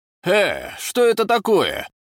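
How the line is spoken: Shout. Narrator (Russian): крикнул он

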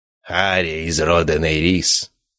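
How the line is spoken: Solemn, like pronouncing sentence. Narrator (Russian): произнес он торжественно, словно зачитывал приговор

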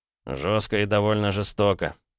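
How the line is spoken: Amused smiling snort. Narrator (Russian): хмыкнул Андрей, улыбнувшись

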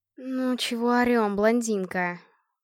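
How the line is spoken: Grumbling. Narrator (Russian): проворчала Надка

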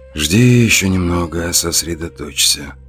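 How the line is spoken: Calm, cool self-talk. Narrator (Russian): спокойно, хладнокровно проговаривал я сам себе

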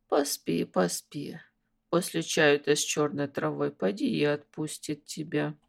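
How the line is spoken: Muttering from behind. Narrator (Russian): донеслось вслед бормотание тети Лиды

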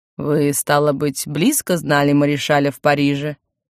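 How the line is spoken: Plain. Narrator (Russian): Отец ответил

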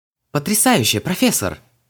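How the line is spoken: Admiring exclamation. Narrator (Russian): восхищенно воскликнул Саймон

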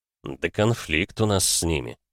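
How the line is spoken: Through gritted teeth. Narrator (Russian): процедил Григор

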